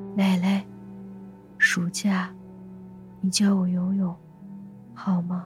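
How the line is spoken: Soft, sweet, coaxing voice. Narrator (Chinese): 他的声音娇柔而不失甜腻，和之前温柔但是干练的声线完全不同

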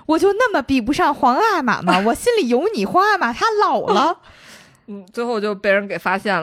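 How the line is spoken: Shouting. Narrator (Chinese): 还在大街上喊

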